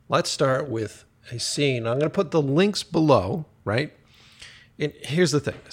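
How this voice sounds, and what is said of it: Voice in bad shape. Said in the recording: “<clears throat> Man, my voice is fucked today.”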